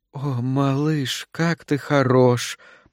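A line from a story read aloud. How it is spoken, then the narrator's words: Seductive cooing. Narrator (Russian): проворковала она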